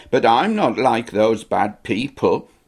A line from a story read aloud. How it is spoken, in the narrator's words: throw up hands in holy horror and exclaim